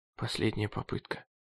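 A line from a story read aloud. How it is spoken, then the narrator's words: Mutter. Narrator (Russian): пробормотал он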